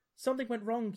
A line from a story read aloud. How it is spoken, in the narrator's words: you exclaim to Torbeck and Jancy